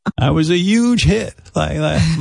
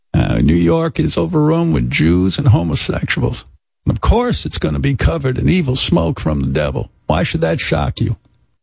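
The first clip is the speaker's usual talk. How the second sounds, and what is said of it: Pat Robertson impression. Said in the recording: “my Pat Robertson impression”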